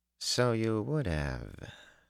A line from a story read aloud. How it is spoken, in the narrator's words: she murmured